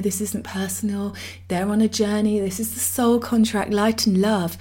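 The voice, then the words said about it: Mock spirit guide voice. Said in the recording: “that's not how my spirit guides talk ... I did that voice”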